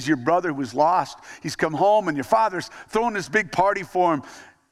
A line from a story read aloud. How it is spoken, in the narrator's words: the servant excitedly says